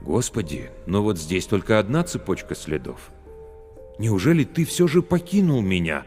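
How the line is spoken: Timid question. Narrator (Russian): душа робко спросила

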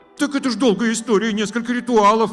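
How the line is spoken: Speech begun, cut off. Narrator (Russian): начала была Наталья

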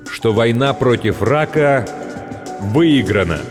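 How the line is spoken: Loud and slow. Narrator (Russian): громко и медленно произносит он

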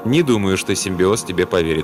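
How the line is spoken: Calm remark. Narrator (Russian): спокойно заметил Сомерсет

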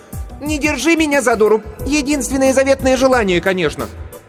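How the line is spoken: Shouted irreverently. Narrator (Russian): Кирстен, немало не заботясь о монаршем достоинстве, закричала

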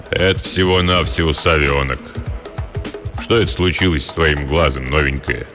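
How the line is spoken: Deep bass voice. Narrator (Russian): Пробасил

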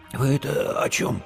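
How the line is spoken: Hoarse rasp. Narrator (Russian): прохрипел Димка севшим голосом

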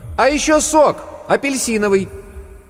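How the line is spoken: Loud shout. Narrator (Russian): громко крикнула

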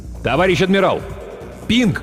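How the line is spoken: Silent mental shout. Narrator (Russian): мысленно крикнул Хо

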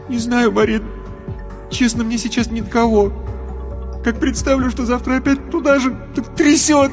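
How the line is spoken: Roaring turning to sobs. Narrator (Russian): Рев перешел во всхлипывание

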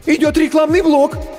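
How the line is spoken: Frightened squeak. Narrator (Russian): испуганно пискнул первый ассистент

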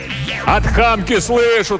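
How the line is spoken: Shouting. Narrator (Russian): тоже заорал Иван

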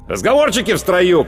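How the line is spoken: Sergeant's shout. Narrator (Russian): крикнул сержант

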